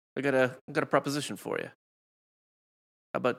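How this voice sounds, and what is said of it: Mob boss accent. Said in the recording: “what is this accent you're giving to Jay Wright? ... he looks like a mob boss.”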